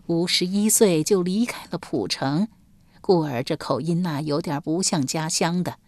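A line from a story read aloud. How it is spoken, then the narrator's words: Old woman sighing. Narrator (Chinese): 老妪叹道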